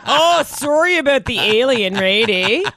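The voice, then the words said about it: Mock Canadian accent. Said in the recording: “I can hear your Canadian accent ... they'd like sneak in the smaller parts as Canadians ... oh, Canadian”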